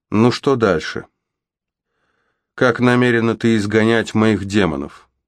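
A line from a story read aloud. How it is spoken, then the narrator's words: Sighing. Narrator (Russian): Мод вздохнула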